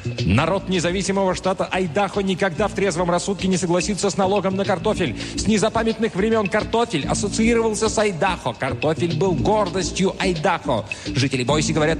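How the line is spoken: Shouted. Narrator (Russian): Когда его отец стоял под разрушенной крышей Мэдисон Гарден и кричал вице-президенту Соединенных Штатов

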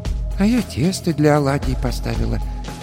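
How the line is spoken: Quiet old woman. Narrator (Russian): тихо сказала баба Маша

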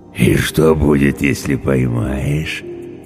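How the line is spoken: Eager booming drone. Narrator (Russian): жадно прогудел Орвар

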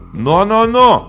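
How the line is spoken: Shouted in chorus. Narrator (Russian): хором выкрикнули мы с папой

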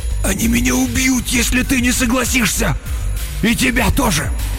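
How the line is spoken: Hoarse wheeze. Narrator (Russian): Он прохрипел

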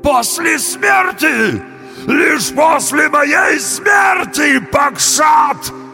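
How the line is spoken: Trembling wail. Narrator (Russian): завопил бык, весь дрожа

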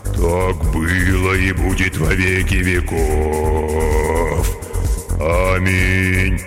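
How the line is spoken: Rich bass singing. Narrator (Russian): самый толстый солист выводя сочным басом

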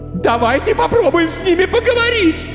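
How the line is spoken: Hysterical girl shouting. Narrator (Russian): истерично кричала девушка

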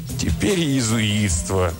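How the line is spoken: Groaning. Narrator (Russian): простонал Бартоломей

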